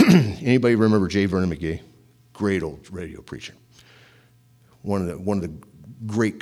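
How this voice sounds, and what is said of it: Usual voice. Nothing is said of it.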